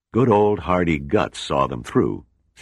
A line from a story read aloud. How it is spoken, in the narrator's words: Seagram said